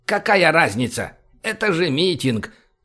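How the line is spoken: Grumbled. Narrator (Russian): пробурчал гном

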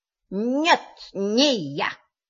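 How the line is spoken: Strange altered voice. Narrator (Russian): сказал кролик совершенно не своим голосом

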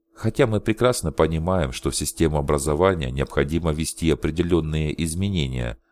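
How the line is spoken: Plain. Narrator (Russian): сказала Риэль

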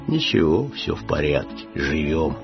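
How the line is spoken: Pensive sad bass voice. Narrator (Russian): Задумчивый грусть басил

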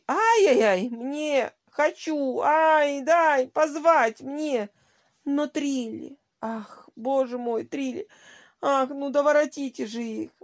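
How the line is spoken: Moaning, nervous lady. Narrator (Russian): застонала нервная дама

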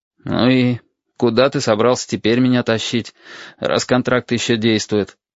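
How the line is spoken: Gloomy question. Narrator (Russian): мрачно поинтересовался

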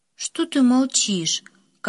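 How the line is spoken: Tired question. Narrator (Russian): Как-то устало спросила она

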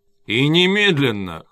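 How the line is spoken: Chuckling. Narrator (Russian): хохотнул капитан

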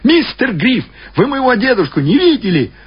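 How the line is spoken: Shouted through doorway. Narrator (Russian): Я крикнул ему в открытую дверь

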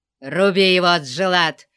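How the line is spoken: Snarling retreating shout. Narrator (Russian): зарычал красный тюрбан, отступая перед мощным натиском кемерийца

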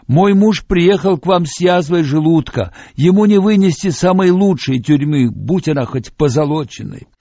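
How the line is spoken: Woman shouting back. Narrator (Russian): Одна из женщин кричала в ответ

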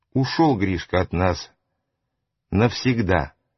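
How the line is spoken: Dejected, sinking voice. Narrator (Russian): сказал упавшим голосом

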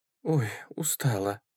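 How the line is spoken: Tired sigh. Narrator (Russian): вздохнула Мария Петровна

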